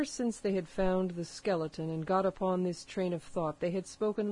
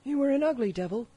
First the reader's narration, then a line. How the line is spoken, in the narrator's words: cried a third pirate with a shudder